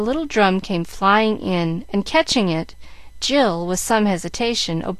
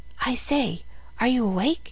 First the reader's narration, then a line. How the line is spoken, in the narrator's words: a voice whispered